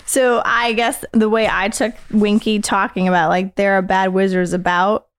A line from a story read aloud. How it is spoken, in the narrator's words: she squealed